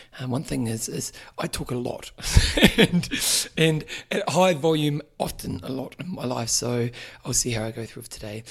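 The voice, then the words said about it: Strained, fading voice. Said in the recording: “You may see that I'm losing my voice a little bit today. I've been yelling too much.”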